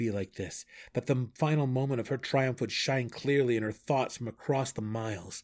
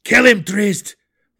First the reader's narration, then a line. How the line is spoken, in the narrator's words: the Borough Warden cried